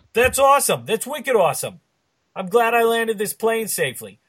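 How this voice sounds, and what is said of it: Bad put-on Boston accent. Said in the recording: “we've spent a bunch of time talking in bad Boston accents.”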